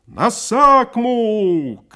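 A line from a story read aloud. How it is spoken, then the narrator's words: Coachman shouting. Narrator (Russian): крикнул передовой ямщик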